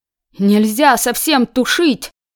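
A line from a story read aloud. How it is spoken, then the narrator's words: Shouted. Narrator (Russian): закричал Казик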